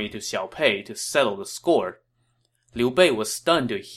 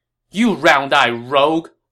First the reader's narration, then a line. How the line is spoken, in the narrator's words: Lu Bu shouted